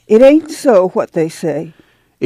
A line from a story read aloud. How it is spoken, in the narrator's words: Ma cried